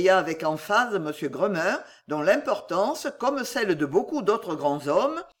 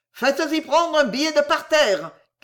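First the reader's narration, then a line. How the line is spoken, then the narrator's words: Shouted. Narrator (French): cria M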